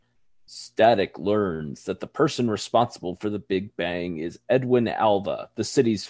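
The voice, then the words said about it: Announcer voice. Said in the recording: “in my best announcer voice”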